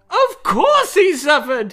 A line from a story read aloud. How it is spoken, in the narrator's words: The Count cried